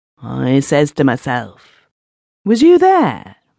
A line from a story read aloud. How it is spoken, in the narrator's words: Migsworth exclaimed